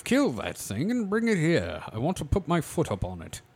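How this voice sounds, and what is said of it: Put-on British accent. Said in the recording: “This sounds very British.”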